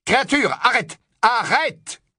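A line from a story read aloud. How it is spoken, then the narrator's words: Shouting. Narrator (French): cria Harry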